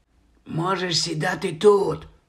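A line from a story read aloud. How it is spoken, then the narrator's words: Whisper. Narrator (Ukrainian): прошепотів Стен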